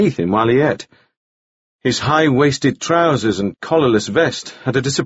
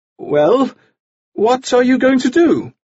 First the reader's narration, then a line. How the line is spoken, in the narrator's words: he said somewhat feebly